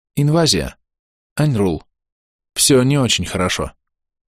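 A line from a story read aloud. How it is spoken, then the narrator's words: Sighing. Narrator (Russian): вздохнула лампа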